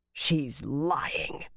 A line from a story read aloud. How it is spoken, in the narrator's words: Magdin growled